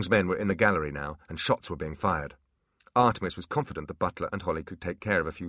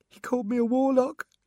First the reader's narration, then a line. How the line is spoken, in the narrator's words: he said tearfully